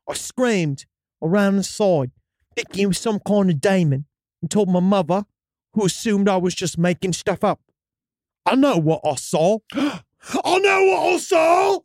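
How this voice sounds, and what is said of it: Put-on accent while reading story. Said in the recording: “it almost comes across different when in that accent ... Can you stick with this accent”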